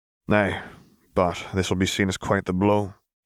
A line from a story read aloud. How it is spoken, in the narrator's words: sighed